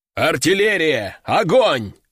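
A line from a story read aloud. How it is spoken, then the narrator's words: Growled over radio. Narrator (Russian): зарычал Кардиналов в рацию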